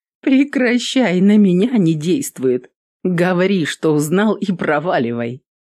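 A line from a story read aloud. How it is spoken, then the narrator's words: After laughing. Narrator (Russian): сказала Эвелин, отсмеявшись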